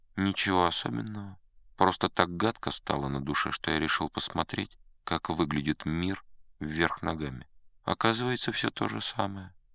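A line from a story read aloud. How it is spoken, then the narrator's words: Unexpectedly calm. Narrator (Russian): Раб ответил неожиданно спокойно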